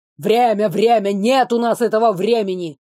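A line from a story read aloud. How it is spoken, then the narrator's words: Displeased grumble. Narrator (Russian): недовольно проворчал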